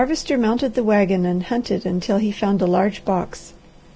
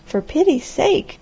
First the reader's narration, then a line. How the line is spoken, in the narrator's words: cried the girl